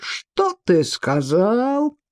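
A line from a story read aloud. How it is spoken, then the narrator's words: Giant's roar. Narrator (Russian): взревел великан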